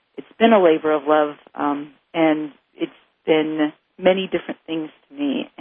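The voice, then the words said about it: Teary, emotional voice. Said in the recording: “you're going to find something very different in my voice today ... I'm a little teary-eyed”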